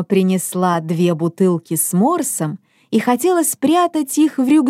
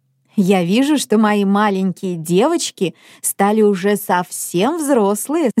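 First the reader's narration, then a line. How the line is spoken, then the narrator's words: Mother laughing. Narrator (Russian): засмеялась мама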